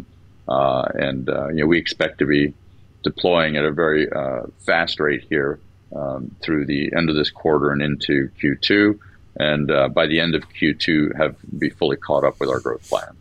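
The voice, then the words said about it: Rich, smooth radio-style voice. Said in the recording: “you got a great radio voice.”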